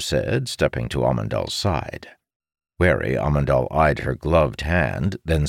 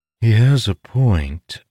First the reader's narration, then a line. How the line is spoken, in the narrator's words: Vayam said, her voice sultry